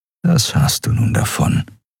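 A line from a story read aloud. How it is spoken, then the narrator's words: Inner whispering voice. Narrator (German): flüsterte eine Stimme in seinem Kopf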